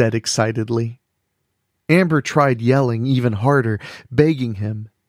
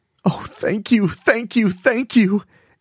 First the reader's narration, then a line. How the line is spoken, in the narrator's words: Amber sobbed